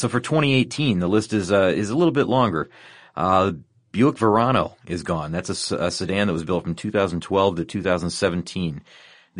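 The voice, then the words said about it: Hoarse, fading voice. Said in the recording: “My voice is going away now.”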